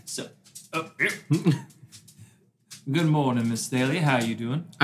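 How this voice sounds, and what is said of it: Put-on Southern accent. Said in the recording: “Is he Southern now? ... you change his accent every single game ... I never said I was going to be good at accents.”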